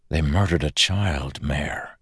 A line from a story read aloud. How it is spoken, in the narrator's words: Kelsier whispered